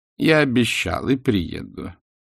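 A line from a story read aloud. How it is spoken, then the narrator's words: Dejected. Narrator (Russian): отвечал он уныло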